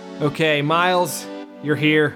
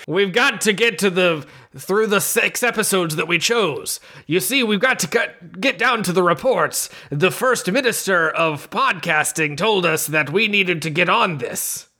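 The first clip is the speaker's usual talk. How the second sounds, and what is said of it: Imitates a fictional character's voice. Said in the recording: “do my best Aramaki impression.”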